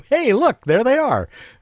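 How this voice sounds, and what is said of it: Put-on Italian accent. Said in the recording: “in his best Italian accent”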